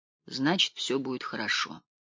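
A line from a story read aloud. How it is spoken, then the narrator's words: Quiet. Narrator (Russian): тихо произнес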